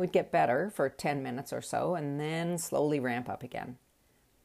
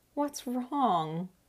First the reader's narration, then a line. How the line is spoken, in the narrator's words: My loving boyfriend sweetly said